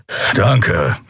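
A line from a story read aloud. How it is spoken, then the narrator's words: Dry growl. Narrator (German): knurrte er trocken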